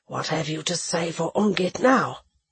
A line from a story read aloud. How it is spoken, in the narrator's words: he asked, still in that low voice